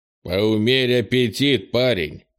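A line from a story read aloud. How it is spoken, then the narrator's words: Wry snort. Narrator (Russian): хмыкнул Крис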